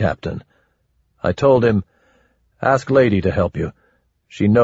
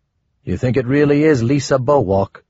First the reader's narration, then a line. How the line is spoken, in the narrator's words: Sleepy asked